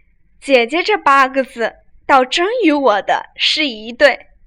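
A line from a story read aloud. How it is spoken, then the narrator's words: Sly laughing question. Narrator (Chinese): 阴笑问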